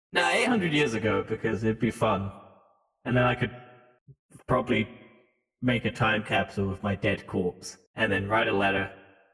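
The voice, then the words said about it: Speaks with a noticeable accent. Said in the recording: “My accent probably doesn't help.”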